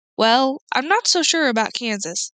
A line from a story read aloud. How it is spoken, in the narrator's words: said Oz